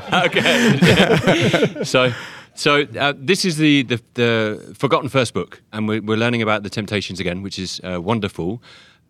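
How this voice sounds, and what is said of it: Speaks with a noticeable accent. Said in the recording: “your awesome accent”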